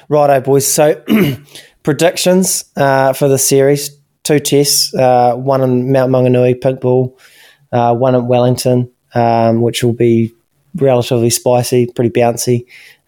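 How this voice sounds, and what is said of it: New Zealand accent. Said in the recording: “someone in a Kiwi accent”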